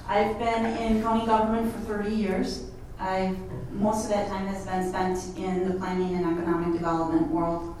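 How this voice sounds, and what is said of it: Midwestern American accent. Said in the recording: “in case you haven't recognized the accent, I'm from the Midwest.”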